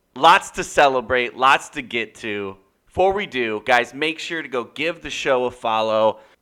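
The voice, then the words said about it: Strained, nearly lost voice. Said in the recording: “I'm almost losing my voice.”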